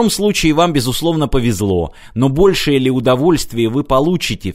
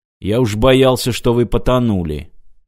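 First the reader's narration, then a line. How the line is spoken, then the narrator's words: Gloomy security officer. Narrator (Russian): мрачно сказал чекист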